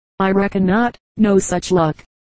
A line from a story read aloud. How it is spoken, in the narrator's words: They laughed, and one of them said